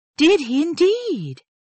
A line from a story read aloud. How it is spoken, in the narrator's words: cried Marianne with excitement